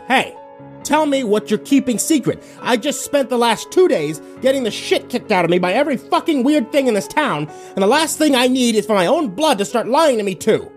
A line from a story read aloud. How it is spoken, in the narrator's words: yelled